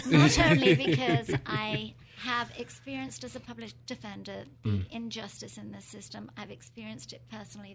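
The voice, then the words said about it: British accent. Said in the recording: “with a British accent”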